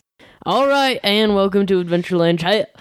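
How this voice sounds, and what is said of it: Put-on accent. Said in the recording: “I don't know why I'm doing this accent”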